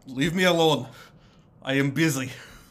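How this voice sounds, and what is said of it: Bad put-on Russian accent. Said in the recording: “I have chosen a shitty Russian accent... That voice is so perfect.”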